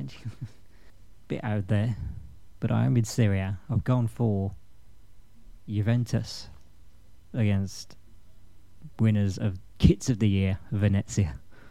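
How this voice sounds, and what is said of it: Regional accent. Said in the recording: “Every time I say Syria, it sounds like Syria. It's the regional accents.”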